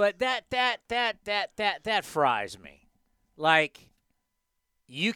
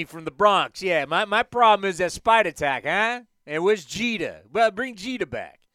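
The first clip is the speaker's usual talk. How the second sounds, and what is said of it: Exaggerated New York accent. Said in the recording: “That's my bad New York Yankees uh, accent. ... just New York”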